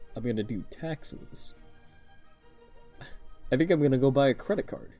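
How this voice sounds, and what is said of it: Mock serious voice. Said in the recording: “Time to do my serious voice. ... My serious voice.”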